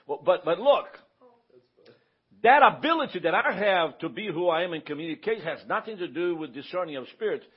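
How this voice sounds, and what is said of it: Mild Southern drawl. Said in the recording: “I talk a certain way with a little accent ... I do have a little accent ... it's a Southern accent. ... It's a Southern draw.”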